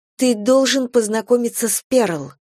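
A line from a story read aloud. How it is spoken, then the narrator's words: Exclaiming. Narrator (Russian): воскликнула она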